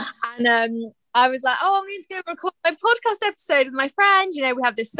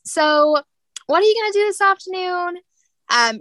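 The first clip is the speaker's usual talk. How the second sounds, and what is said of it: Poor put-on American accent. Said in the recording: “She's American ... I put on a terrible American accent.”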